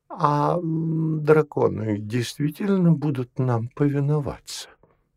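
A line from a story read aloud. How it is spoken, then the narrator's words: Anxious question. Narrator (Russian): Дионисий Тигранович отчего-то заволновавшись, спросил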